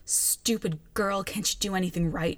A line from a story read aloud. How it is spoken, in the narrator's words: spits at her through gritted teeth